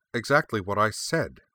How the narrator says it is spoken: Anthea replied, more than a little sharply

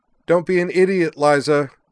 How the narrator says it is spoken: cried

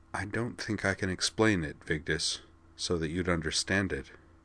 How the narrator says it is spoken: Corwin said softly

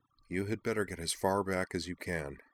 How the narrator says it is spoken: Nall murmured to Umi

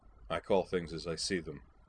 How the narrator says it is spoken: Gold replied stiffly

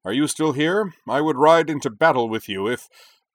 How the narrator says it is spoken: bellowed cheerily

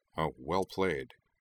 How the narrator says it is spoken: he muttered to Toph

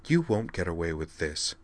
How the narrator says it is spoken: Vigdis hissed, keeping her voice down for Beldandi's sake

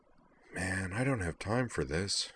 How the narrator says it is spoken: he muttered

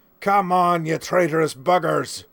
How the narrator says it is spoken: Teach roared

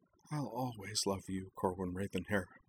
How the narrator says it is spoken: Utrina whispered

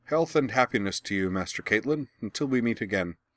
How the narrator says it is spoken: said Ito

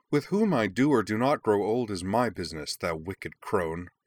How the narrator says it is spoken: Umi spat back

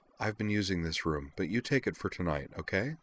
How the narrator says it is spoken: said quietly to Miki

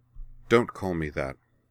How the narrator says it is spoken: she said sharply

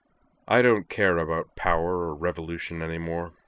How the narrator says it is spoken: stated flatly

